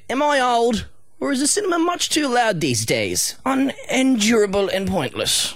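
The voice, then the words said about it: Hugh Grant impression. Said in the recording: “I love your Hugh Grant accent there.”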